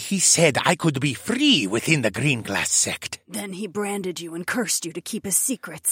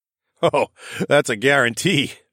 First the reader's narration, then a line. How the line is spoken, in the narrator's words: I laughed